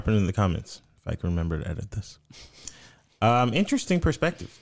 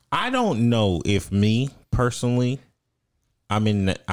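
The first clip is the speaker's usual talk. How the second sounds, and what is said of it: Sudden country twang. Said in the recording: “he got real country real quick ... When'd you get twangy?”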